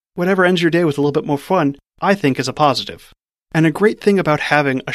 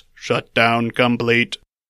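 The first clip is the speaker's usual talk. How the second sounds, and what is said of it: Robot voice. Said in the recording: “robot voice”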